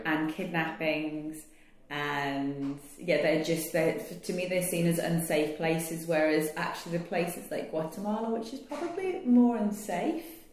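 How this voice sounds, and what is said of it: British accent. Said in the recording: “you can probably tell by my accent, I'm from the UK.”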